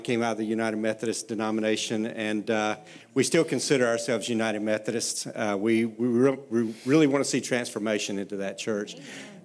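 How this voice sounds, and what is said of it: South Carolina Southern American accent. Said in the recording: “this is not a Pennsylvania accent. My wife and I are from Myrtle Beach, South Carolina.”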